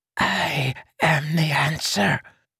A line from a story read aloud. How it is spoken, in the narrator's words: Renarin hissed with a passionate intensity